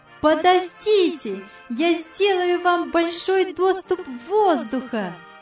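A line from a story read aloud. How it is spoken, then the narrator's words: Joyful shout. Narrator (Russian): радостно крикнула Яна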